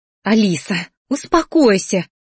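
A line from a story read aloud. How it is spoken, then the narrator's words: Pleading, aunt. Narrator (Russian): взмолилась тетя Дионика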